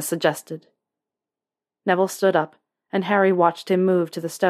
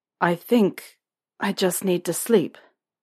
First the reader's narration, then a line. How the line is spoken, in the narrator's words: Harry said